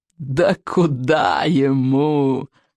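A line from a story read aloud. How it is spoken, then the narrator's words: Loud laughter. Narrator (Russian): расхохотался Сморкало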